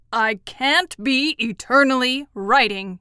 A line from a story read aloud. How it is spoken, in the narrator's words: growled